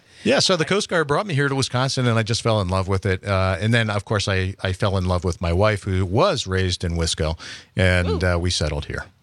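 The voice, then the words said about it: Slight Pennsylvania Dutch accent, rounded O's. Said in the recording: “a little bit of a Pennsylvania Dutch accent. ... I round the O's a little bit”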